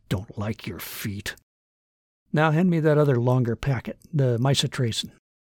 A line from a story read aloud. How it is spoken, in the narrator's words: Under his breath, he muttered